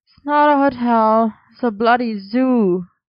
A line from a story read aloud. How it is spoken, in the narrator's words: Merlin grumbled